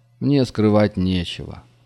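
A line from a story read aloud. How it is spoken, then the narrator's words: Sighing. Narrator (Russian): вздохнул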